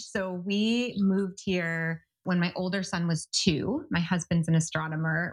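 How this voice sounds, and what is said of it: American English accent. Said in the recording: “you can probably tell from my accent, your listeners can tell I'm American, I'm not French.”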